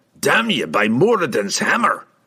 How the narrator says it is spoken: Brunner spat

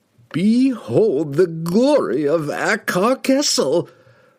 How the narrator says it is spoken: cried, his voice magnified to deafening proportions by the power of the relic

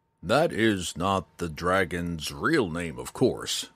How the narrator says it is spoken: Mateus went on between the grunts as he struggled with Jenkin

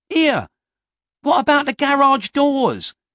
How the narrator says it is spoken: shouted Featherhead

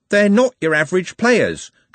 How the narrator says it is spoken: Trev blurted out

